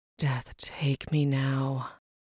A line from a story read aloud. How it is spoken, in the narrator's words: Brenora sighed